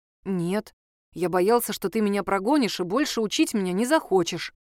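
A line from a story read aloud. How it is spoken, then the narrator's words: Plain. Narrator (Russian): ответил Николай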